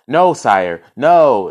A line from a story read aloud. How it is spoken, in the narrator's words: exclaimed the minister